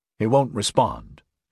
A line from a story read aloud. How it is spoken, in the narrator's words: Axford warned in a low voice